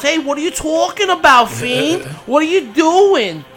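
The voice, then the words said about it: New Jersey accent, Liv Morgan impression. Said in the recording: “She cannot get rid of that accent if she tried for 10 years. That New Jersey accent is not going anywhere”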